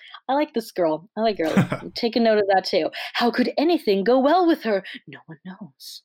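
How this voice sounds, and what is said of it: Usual voice. Nothing is said of it.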